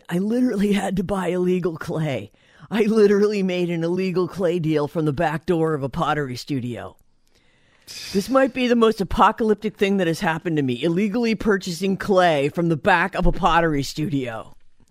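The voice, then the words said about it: Seth Rogen impression. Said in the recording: “That's my Seth Rogen impression”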